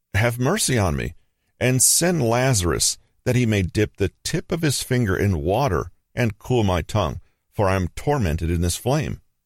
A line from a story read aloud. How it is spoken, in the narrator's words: The rich man cried out to Father Abraham